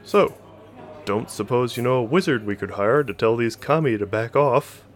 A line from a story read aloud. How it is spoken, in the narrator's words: Hoshino chuckled again